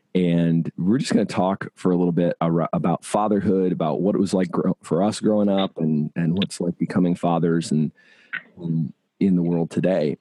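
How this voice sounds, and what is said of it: Rough, congested voice from a cold. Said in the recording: “Whoa, my voice is terrible today. I got a cold this week”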